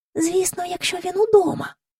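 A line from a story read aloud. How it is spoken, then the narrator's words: Whisper. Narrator (Ukrainian): пошепки сказала Джейн до Майкла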